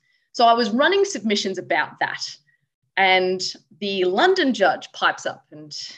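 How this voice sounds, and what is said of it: Usual voice. Nothing is said of it.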